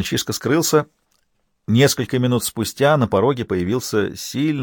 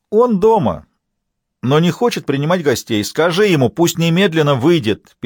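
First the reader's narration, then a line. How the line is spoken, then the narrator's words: Yelling over a barking dog. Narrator (Russian): перекрикивая пса, заорал Лабрюер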